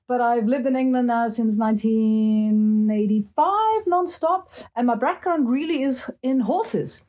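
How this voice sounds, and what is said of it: Slight continental European accent. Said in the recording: “you might kind of notice a bit of an accent”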